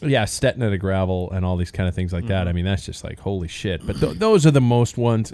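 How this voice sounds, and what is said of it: Usual voice. Nothing is said of it.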